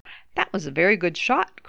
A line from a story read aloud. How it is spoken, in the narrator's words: cried Puss